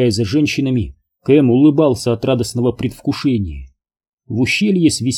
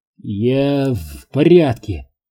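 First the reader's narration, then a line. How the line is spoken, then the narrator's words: Strained, forced out. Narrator (Russian): выдавил он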